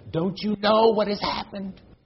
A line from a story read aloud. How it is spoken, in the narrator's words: screamed